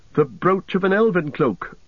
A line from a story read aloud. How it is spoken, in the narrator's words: cried Legolas and Gimli together